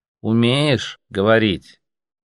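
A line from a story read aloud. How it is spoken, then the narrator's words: Slow repetition. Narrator (Russian): медленно повторил слоник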